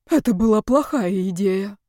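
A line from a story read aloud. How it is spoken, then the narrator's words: Breathy exhale. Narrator (Russian): выдохнул Яков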